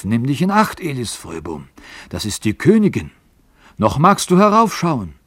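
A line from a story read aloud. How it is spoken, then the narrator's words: Old man calling out. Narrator (German): Der Alte hatte ihn umfasst und rief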